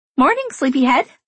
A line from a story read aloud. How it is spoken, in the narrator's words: Cassie says cheerfully